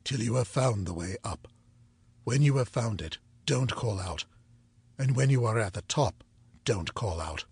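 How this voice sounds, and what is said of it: Peculiar low voice. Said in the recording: “in his peculiar low voice”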